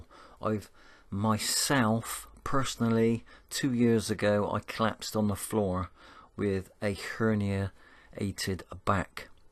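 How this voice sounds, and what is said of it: Bristolian English accent. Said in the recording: “Must be my Bristolian accent.”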